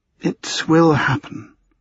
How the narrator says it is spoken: she said, her voice soft but certain

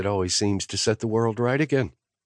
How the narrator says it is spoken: Sloane said cheerfully

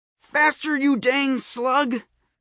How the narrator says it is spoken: I yelled

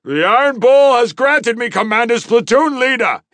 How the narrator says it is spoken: he shouted

